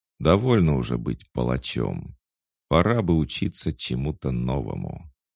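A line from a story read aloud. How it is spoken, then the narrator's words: Calm. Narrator (Russian): спокойно сказал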